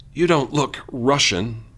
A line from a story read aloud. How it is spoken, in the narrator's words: wheeze